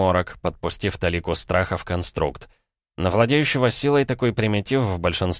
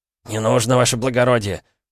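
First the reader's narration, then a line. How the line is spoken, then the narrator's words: Timid babbling peasant. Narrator (Russian): пролепетал мужик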